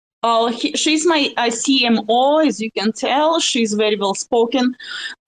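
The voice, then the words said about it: Russian accent in English. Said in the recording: “don't be scared from my, Rus- of my russian accent”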